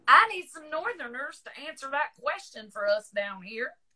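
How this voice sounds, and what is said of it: Exaggerated thick Southern accent. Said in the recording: “As if my accent wasn't deep enough, I had to throw it on thicker there.”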